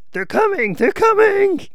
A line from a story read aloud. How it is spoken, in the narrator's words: the cries of